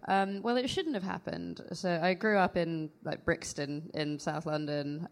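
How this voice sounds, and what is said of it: Slight American accent. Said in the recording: “You have got a little bit of an American... Is that an American accent? ... It is a little bit of an American accent”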